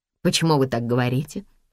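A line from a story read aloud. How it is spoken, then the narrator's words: Plain. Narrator (Russian): спросил Энтони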